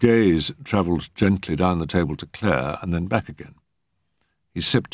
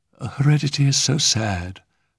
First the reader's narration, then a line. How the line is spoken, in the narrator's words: sighed the lady vaguely